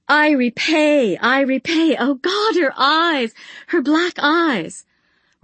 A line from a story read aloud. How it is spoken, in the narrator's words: She was shrieking